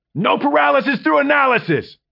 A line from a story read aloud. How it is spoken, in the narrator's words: Quincy shouted again and again